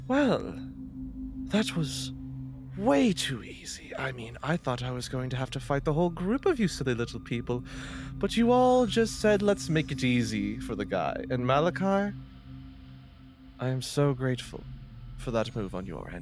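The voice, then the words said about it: Eloquent put-on character accent. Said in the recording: “I love this accent. It's so eloquent. Much better than the trivial twang”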